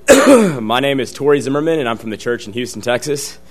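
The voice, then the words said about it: Hoarse voice. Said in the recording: “hoarse”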